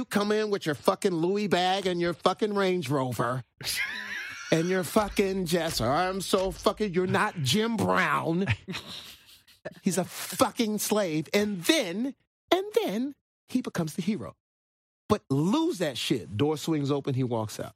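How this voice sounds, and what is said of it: Quentin Tarantino impression, matching cadence. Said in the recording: “great Quentin impersonation. ... I love Jamie Foxx's Quentin Tarantino impersonation. Because he gets like his cadence. ... His cadence perfectly.”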